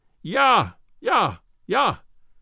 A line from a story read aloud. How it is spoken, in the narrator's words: In a voice of thunder he yelled it